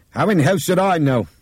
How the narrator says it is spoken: Nick shouted at him suddenly

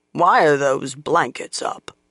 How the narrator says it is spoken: a sour voice demanded gruffly

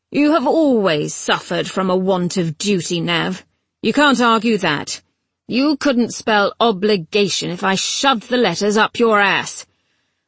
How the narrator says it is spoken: Eventually she said gruffly

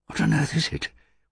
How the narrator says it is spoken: whispered Rek

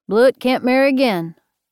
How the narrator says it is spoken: Sheriff said flatly

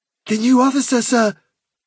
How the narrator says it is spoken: he cried

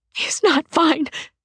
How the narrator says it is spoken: Cedra says, voice quavering

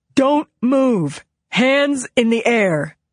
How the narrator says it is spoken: A voice, amplified through a bullhorn, boomed

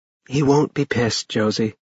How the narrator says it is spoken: Mia said softly

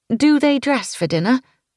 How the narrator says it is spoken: sighed

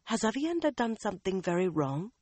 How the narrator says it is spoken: to whisper

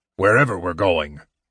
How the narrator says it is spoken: muttered Flint irritably

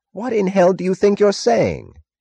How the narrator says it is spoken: Taggart cried furiously

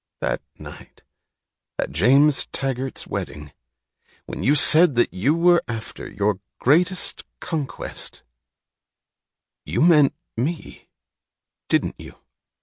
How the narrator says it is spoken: said Reardon slowly

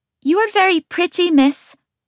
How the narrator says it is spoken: 1 blurts back at me

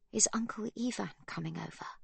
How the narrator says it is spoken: Magda whispers

